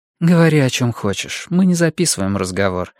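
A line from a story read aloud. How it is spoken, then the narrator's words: Calm reply. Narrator (Russian): спокойно ответила Сага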